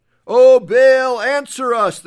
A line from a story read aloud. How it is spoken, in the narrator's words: they shouted